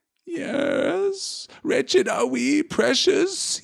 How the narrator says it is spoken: he whined

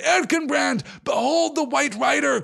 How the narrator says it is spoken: cried Aragorn

